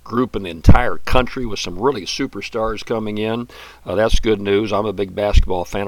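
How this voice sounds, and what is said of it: Hoarse voice. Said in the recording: “this little hoarseness I have in my voice ... take care of my throat”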